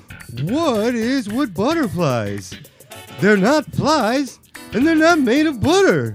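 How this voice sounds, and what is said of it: Imitates another person's voice. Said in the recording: “Let's hear your Seinfeld impression.”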